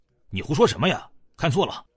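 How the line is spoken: Low, displeased. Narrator (Chinese): 萧北望 沉声不悦道

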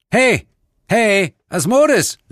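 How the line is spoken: Called out. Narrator (German): rief ich

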